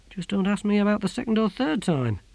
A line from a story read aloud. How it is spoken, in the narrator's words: he said quietly to himself